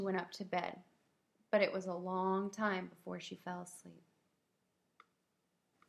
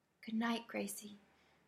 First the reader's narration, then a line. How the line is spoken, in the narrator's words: whispered